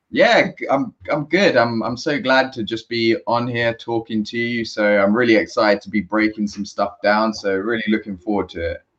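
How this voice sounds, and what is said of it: British accent. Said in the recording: “The British accent.”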